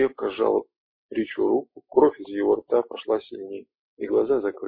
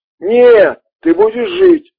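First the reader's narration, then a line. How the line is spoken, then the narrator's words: Shouting. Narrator (Russian): кричал Рич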